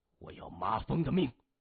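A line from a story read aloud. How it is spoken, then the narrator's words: Cold. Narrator (Chinese): 谢文东冷冷的说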